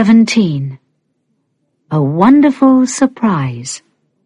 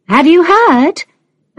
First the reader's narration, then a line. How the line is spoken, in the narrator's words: another mother called out